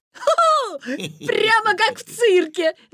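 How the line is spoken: Laughing. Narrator (Russian): засмеялся Витя

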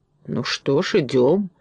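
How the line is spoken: Grumbling. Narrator (Russian): проворчал Фарамант

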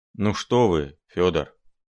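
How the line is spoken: Sad mutter. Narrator (Russian): печально буркнул Филипп Филиппович

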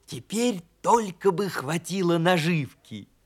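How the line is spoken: Hedgehog's whisper. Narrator (Russian): прошептал ежик

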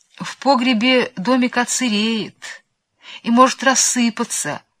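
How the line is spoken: Timid objection. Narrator (Russian): робко возразил кум Тыква

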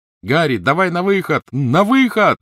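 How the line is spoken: Shouted. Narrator (Russian): крикнул Рон

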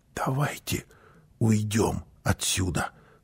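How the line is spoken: Whispered. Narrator (Russian): прошептала мама

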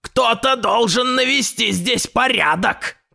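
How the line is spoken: Shout. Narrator (Russian): крикнул он

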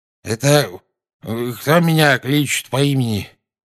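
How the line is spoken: Sleepy mumble. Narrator (Russian): сонно пробормотал наземникус

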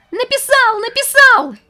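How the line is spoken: Squealing with delight. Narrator (Russian): Он просто визжал от восторга

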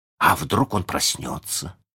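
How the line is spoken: Suddenly hoarse voice. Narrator (Russian): спросил Джон внезапно севшим голосом

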